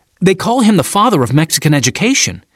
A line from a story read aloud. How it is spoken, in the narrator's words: said Cam excitedly